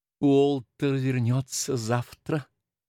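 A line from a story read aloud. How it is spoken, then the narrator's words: Dejected, breaking silence. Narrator (Russian): сказала, наконец, миссис Уотерс, уныло прерывая молчание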